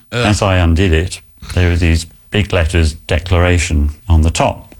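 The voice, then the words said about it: British accent. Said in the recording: “British accent.”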